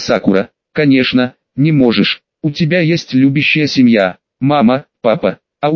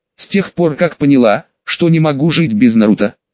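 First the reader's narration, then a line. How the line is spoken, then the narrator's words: Plain. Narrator (Russian): сказала Мита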